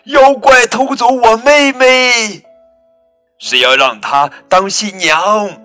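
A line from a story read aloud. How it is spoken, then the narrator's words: Loud shout. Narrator (Chinese): 他大声叫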